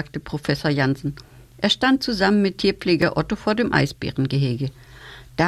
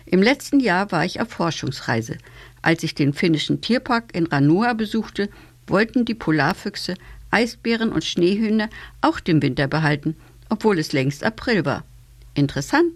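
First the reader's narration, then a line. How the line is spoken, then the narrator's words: Plain. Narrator (German): sagte Otto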